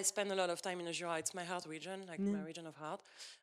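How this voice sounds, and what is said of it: Non-native accented English. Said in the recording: “Don't make fun of my accent.”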